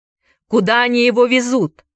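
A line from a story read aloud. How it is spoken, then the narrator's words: Shouted. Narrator (Russian): крикнул Энди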